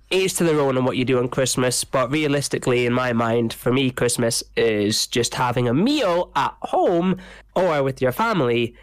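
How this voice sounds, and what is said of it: Stuffy, nasal blocked-nose voice. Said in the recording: “my voice sounds a bit stuffy, it's because I've got an absolutely killer blocked nose, so I might sound very nasally.”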